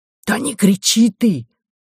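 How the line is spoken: Hiss. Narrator (Russian): зашипел физкультурник

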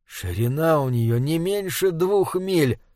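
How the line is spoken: Whisper. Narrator (Russian): прошептал Ник

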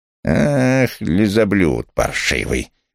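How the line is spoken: Said through gritted teeth. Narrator (Russian): процедила она

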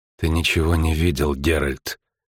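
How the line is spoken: Whispered. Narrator (Russian): шепотом сказала Филиппа Эльхард

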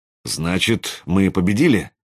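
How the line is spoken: Uncertain question. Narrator (Russian): спросил я неуверенно

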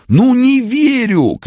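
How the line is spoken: Shouting. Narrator (Russian): кричал странный комбайнер

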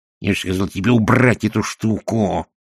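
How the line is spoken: Hissed. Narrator (Russian): прошипел Шнобби

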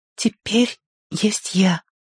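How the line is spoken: Whisper. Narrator (Russian): раздался чей-то шепот

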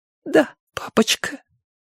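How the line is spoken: Barely audible whisper. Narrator (Russian): еле слышно прошептала Лошарон

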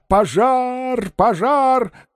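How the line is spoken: Shouting at full force. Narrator (Russian): Он изо всех сил кричал

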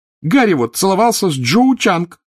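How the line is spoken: Shouting, nearly crying. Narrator (Russian): выкрикнула Джинни, чуть не плача

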